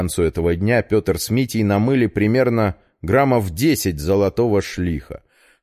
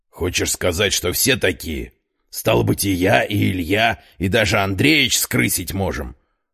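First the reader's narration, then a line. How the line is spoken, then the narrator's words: Muffled objection. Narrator (Russian): глухо возразил Егор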